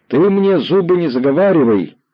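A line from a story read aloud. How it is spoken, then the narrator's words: Boy suddenly yelling. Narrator (Russian): вдруг заорал мальчик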